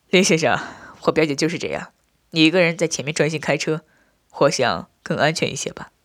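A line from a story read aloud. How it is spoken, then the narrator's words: Smiling. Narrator (Chinese): 我笑着对林汉道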